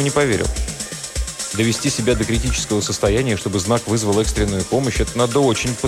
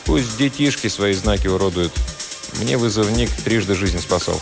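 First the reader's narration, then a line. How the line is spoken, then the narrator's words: Calm. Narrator (Russian): Но Игорь спокойно ответил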